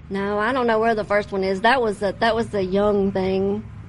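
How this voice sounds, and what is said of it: Louisiana accent. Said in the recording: “Mine comes with the territory. ... That's how Louisiana talk. ... wrong with your accent.”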